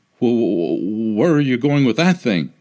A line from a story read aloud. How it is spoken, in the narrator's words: He stammered